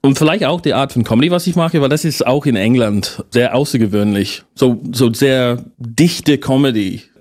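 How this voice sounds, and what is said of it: Noticeable foreign accent in German. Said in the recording (German): “Und Akzent. ... Akzent.”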